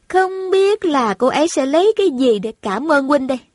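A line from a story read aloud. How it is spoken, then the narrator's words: Smiling. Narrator (Vietnamese): Thành Thành mỉm cười nói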